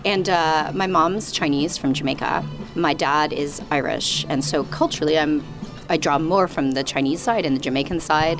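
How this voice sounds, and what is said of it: Canadian accent. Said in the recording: “I'm a Canadian. You might hear from my accent.”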